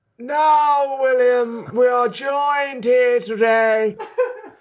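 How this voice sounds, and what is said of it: Impression drifting into Voldemort-like voice. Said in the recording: “It was sort of a cross between my mother and my father. ... It's gone a bit Lord Voldemort.”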